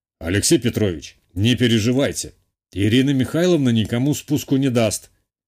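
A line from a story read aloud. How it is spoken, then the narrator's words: Snort. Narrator (Russian): хмыкнул хозяин клуба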